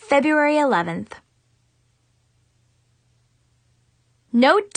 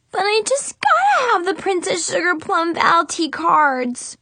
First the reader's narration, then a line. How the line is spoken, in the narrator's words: Brianna whined